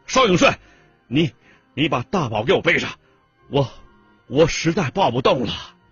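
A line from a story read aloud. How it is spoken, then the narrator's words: Breathless loud shout. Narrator (Chinese): 沙飞是气喘如牛啊，冲画报社的炊事员大喊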